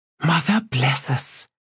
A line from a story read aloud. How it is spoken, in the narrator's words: Kedavis whispered